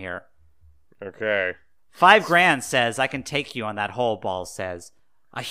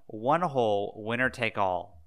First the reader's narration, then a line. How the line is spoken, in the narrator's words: Balls said coldly